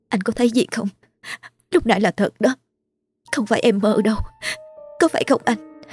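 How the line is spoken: Trembling voice. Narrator (Vietnamese): Cô giọng run run nói

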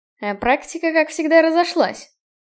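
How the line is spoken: Scoffing snort. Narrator (Russian): хмыкнул Киган

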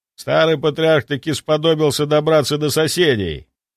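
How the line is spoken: Snort. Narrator (Russian): фыркнул мужчина

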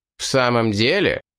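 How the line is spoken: Menacing. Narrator (Russian): грозно произнес

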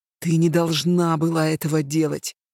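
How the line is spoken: Low growl. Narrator (Russian): прорычал он глухо

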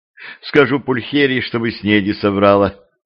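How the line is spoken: Sighed. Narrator (Russian): вздохнула Левтина

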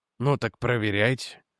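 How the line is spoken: Sigh. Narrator (Russian): вздохнул Реджи

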